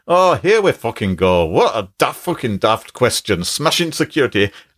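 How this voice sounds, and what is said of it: Put-on Scottish accent. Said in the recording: “it's written in the Scottish dialect. ... I'll do my best to, we're doomed Scottish voice.”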